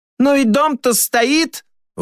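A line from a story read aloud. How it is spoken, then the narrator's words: Woman shouting from audience. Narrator (Russian): выкрикнула из зала какая-то женщина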